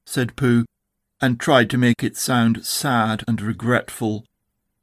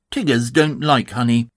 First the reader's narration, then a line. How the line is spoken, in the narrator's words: said in a very decided voice